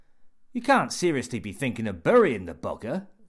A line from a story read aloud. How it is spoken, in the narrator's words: snorted Ted Cavendish